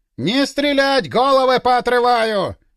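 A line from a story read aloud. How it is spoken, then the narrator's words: Frantic yell through megaphone. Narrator (Russian): Истошно заорал кто-то, судя по всему, в мегафон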